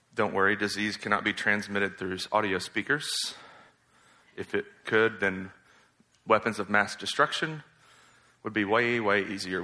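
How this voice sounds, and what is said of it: Hoarse, nearly lost voice. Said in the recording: “My voice is gone. I've been coughing a lot”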